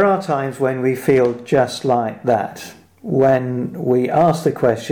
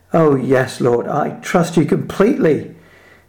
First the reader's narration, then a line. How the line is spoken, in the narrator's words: shouted